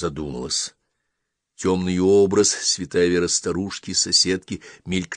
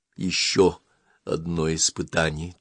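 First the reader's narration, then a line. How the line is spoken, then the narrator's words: Quiet. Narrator (Russian): тихо сказала она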